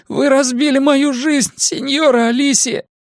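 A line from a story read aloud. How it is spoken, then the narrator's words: Sobbing declaration. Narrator (Russian): заявил он, всхлипывая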